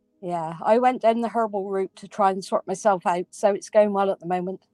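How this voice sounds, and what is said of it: Cornish accent. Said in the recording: “Oh my God, I love her accent... is a Cornish girl, true and true”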